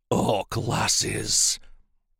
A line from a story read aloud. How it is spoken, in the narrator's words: said through gritted teeth